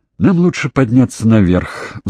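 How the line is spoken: Sigh. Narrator (Russian): вздохнула Доминик

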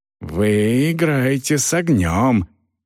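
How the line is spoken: Hiss. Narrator (Russian): прошипел капитан Пруф

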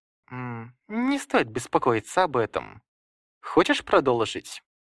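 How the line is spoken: Calm question. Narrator (Russian): Яруаши спокойно спросил

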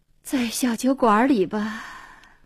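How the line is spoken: Sighing. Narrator (Chinese): 黄英叹口气说

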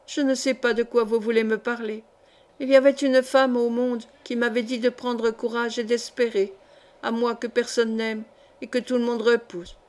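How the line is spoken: Broken, emotional voice. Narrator (French): dit-elle d'une voix entrecoupée par les soubresauts de son pauvre cœur

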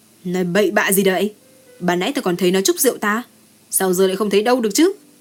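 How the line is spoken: Mild rebuke. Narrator (Vietnamese): Liễu Khang Bách quát nhẹ một tiếng

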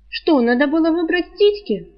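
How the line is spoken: Exasperated snapping retort. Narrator (Russian): огрызнулась девушка, тоже доведенная до белого коленя

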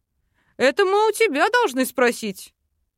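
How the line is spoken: Snorting chuckle. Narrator (Russian): хмыкнул папа Тай

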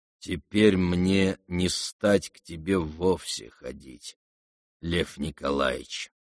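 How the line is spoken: Slow and sententious. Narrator (Russian): Медленно и сентенциозно прибавил он

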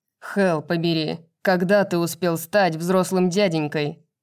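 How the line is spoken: Growl. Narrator (Russian): прорычал Флинн

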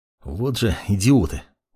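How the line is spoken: Less angry. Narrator (Russian): Уже не так злобно, произнес маг

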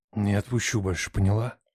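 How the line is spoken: Whisper in ear. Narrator (Russian): зашептал на ухо

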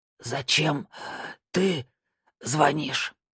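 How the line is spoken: Hoarse rasp. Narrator (Russian): наконец прохрипел Виктор

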